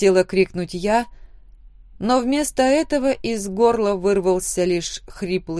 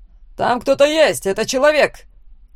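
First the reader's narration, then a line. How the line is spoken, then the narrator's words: Guard shouting. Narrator (Russian): крикнул один из стражников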